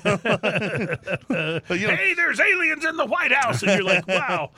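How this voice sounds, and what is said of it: Alex Jones impression. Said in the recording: “that was my Alex Jones impression”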